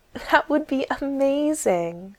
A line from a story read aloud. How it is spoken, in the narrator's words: said Nita, half laughing, but meaning it